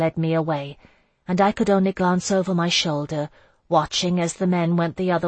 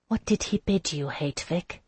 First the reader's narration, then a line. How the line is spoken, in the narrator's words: I whispered